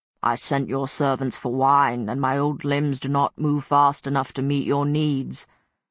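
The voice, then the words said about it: Raspy old man's voice. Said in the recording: “A voice as raspy as sand swirling in a glass”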